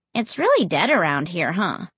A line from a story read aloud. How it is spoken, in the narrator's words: He chuckled